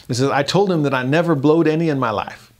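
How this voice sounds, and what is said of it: Put-on Southern country accent. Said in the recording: “I almost can't help but read this with a southern accent, right? The country boys can't survive.”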